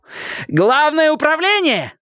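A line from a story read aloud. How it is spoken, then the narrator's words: Harsh, grating shout. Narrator (Russian): закричала она своим ставшим окончательно неблагозвучным голосом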